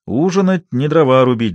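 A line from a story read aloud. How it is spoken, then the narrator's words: Laughing. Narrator (Russian): засмеялся Тереха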